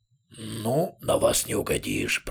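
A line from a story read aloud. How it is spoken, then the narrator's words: Grumbling two-headed creature. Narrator (Russian): проворчал двуглавый Юл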